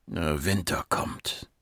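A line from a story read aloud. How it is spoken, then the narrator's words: Murmur. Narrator (German): murmelte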